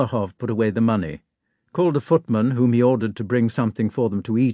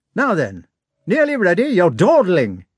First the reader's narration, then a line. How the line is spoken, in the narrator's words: he shouted to the servants